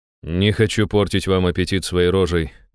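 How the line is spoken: Snorting. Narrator (Russian): хмыкнул я

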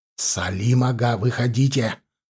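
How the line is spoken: Whisper. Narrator (Russian): донесся шепот

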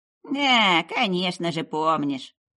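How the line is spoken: Grumbling old witch. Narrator (Russian): проворчала ведьма

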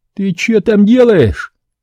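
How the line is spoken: Stunned yelling taxi driver. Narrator (Russian): Пораженный моей наглостью, ошарашенно заорал таксист

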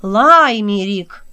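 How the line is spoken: Resonant echoing shout. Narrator (Russian): крикнула Имлах, заполнив своим звучным голосом весь огромный свод

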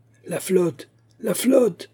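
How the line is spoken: Soldier shouting. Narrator (French): crie un soldat

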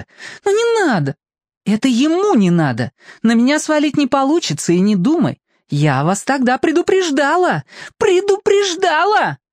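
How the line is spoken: Shrill shriek. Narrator (Russian): взвизгнула Аделина

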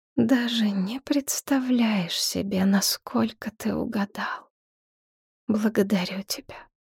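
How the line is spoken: Soft, moved voice. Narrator (Russian): Мягко, растроганно, проговорила

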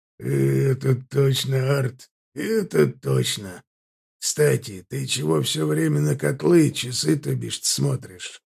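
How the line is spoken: Heavy sigh. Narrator (Russian): Ардан вздохнул едва ли не тяжелее, чем Аркар недавно

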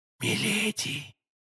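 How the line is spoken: Whisper. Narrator (Russian): прошептал Д'Артаньян

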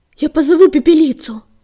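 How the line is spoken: Shout. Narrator (Russian): закричал он

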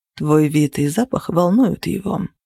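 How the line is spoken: Calm remark. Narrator (Russian): спокойно заметил Зеро

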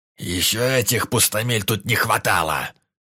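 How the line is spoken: Sudden growl. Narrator (Russian): Вдруг рыкнул глава гильдии

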